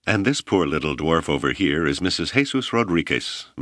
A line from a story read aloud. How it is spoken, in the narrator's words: Malama laughed